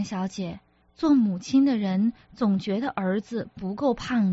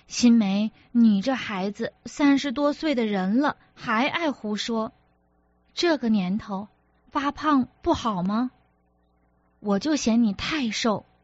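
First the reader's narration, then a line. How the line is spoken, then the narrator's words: Old woman cutting in. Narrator (Chinese): 赵老太太没等他开口就说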